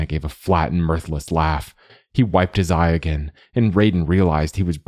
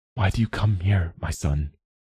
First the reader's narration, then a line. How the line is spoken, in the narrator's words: Raiden asked him gently